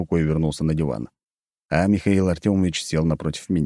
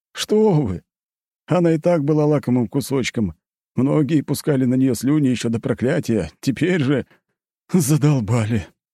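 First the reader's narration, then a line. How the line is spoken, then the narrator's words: Moaning. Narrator (Russian): простонал тот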